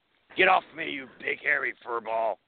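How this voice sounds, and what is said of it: Han Solo impression. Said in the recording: “my best Han Solo impersonation”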